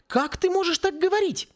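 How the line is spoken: Exclaimed. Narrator (Russian): воскликнула она

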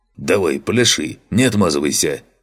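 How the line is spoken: Smirking snort. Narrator (Russian): хмыкнул Фантик

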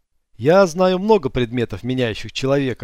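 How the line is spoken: Laughing. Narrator (Russian): рассмеялся Алонсо

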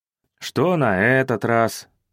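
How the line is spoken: Tired speech. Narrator (Russian): устало проговорил

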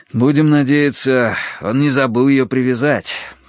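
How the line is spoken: Sigh. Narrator (Russian): вздохнул я

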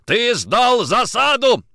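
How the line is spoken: Yelling. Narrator (Russian): орал Никитин

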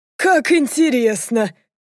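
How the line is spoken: Laughing father. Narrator (Russian): рассмеялся отец

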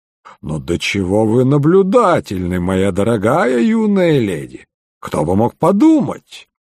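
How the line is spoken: Joking tone. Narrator (Russian): говорил он шутливым тоном

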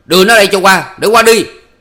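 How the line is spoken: Roaring. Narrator (Vietnamese): Chính Thuộc gầm lên

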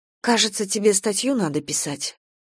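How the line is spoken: Timid question. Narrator (Russian): робко спросила

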